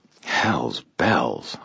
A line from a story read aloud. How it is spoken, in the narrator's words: I muttered